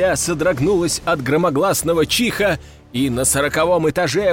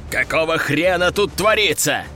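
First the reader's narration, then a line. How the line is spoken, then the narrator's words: Growl. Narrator (Russian): Рыкнул он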